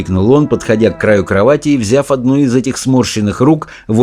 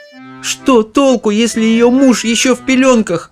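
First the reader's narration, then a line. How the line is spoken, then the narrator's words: Moan. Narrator (Russian): простонала миссис Бакет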